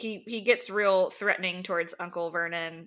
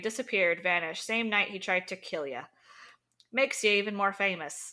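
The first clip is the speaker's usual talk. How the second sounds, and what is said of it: Put-on character accent sounding Irish. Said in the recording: “Sorry, that's Irish. I shouldn't ever try the accent.”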